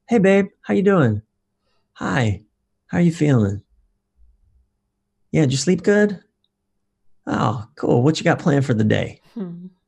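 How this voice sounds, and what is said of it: Warmer, gentler tone of voice. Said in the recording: “change my tone of voice ... In another tone ... you were warmer”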